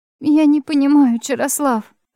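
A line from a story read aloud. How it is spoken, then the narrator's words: Sobbing babble. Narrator (Russian): лепетала я, всхлипывая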